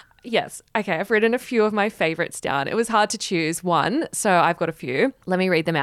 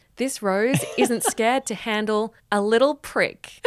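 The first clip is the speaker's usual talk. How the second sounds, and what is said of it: Imitates another person's voice. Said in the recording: “I've got to do the voice.”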